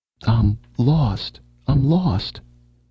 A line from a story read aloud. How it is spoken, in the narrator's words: wailed the voice in his brain